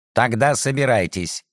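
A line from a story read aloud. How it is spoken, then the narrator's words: Stern order. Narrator (Russian): строго приказал Сумароков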